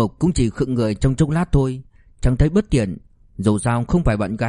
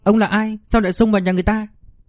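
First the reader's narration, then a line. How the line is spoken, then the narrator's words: Shrill shriek, shout. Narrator (Vietnamese): cô gái hét chói tai, quát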